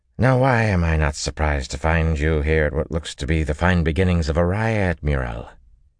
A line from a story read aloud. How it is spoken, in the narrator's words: Her slurred accent had a twang in it